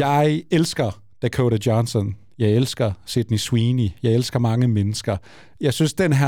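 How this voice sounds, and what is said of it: Usual voice. Nothing is said of it.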